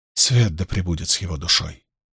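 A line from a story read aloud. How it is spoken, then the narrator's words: Murmured. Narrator (Russian): пробормотала Фейли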